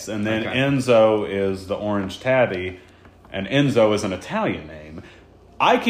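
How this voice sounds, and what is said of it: Usual voice. Nothing is said of it.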